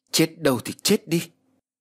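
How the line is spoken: Loud shout. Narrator (Vietnamese): cô liền hét lớn

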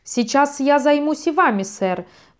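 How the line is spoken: Shouted. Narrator (Russian): прокричал Бакунин

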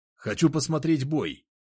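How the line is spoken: Shout. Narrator (Russian): прокричал

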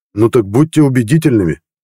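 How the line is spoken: Barked. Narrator (Russian): рявкнул я

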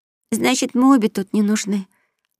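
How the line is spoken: Sad, smiling. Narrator (Russian): грустно улыбаясь, промолвила маленькая леди

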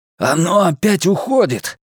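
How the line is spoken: Roar. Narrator (Russian): проревел он

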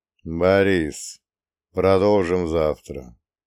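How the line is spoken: Tired. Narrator (Russian): устало сказал ликвидатор

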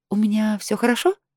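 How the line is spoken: Timid question. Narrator (Russian): Робко уточнила я

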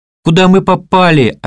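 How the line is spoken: Desperate scream. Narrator (Russian): отчаянно закричала Ксения

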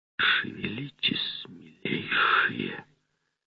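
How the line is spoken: Threatening whisper. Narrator (Russian): Раздался шепот

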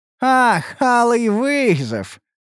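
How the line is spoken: Laughing necromancer. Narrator (Russian): хохотнул некромант

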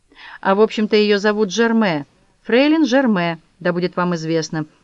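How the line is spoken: Loud. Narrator (Russian): громко сказал доктор Циттербайн

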